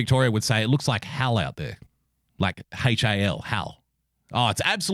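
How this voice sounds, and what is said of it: Usual voice. Nothing is said of it.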